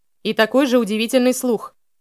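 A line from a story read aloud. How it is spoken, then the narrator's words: Shouted reply. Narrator (Russian): крикнул в ответ Элиас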